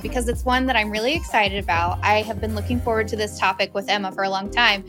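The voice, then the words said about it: Smiling, cheerful tone. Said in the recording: “You could probably hear the smile in my voice right now”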